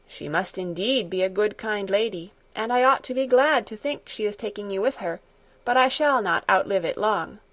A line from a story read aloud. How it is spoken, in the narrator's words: said a little sadly